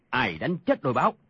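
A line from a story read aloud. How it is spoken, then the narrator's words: Angry. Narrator (Vietnamese): Tàn Cồn tức giận nói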